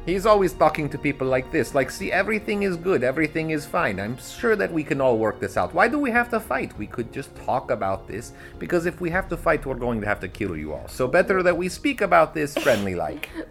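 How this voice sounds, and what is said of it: Bad pseudo Eastern European accent. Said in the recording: “I talk with a sort of pseudo Eastern European accent... It's a bad accent”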